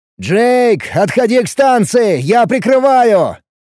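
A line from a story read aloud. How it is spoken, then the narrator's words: Barked command. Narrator (Russian): рявкнул я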